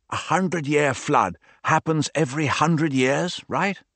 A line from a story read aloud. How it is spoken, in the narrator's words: Gabri whispered to Clara